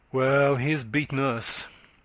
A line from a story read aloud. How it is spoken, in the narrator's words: her aunt said